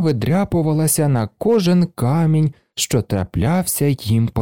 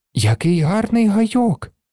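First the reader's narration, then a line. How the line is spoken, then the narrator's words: Delighted exclamation. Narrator (Ukrainian): захоплено вигукнула Аніка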